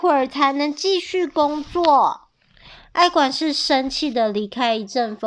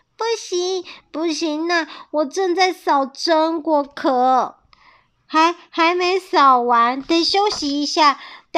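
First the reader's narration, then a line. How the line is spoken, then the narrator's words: Drowsy, muffled voice. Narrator (Chinese): 一阵风迷迷糊糊的声音从帽子下面传出来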